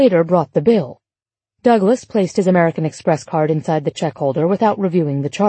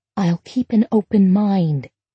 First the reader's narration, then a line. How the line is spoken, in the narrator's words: Laura whispered back